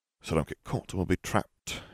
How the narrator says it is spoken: Harry murmured

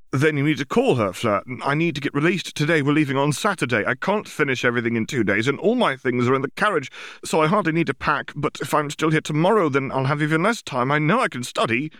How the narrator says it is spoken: said frantically

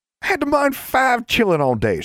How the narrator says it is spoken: she cried

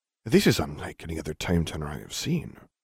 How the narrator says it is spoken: he muttered

